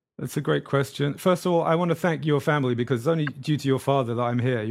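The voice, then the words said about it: Speaks with a noticeable accent. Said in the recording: “we can hear it in your accent”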